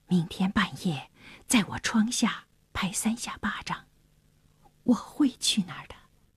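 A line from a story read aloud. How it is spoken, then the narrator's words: Low voice. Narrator (Chinese): 那沙尔低声地说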